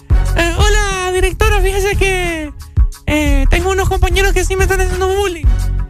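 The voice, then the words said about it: Ugly put-on child's voice. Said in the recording (Spanish): “Qué fea la voz de niño ... es ... de niño.”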